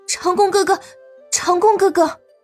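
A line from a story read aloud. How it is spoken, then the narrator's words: Panicked calling out. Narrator (Chinese): 他神色慌张的呼喊道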